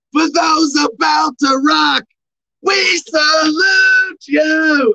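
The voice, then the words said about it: Bad AC/DC singer impression. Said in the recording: “AC/DC, bad impersonation.”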